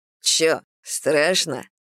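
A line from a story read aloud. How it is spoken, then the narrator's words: Scoffing snort. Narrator (Russian): хмыкнул Брэд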